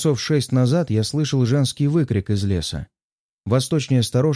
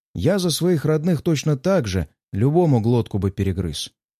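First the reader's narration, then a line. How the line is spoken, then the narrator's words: Plain. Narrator (Russian): ответил он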